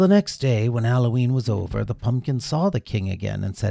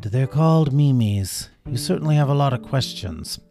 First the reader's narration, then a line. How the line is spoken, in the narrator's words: The king sighed, growing weary, and said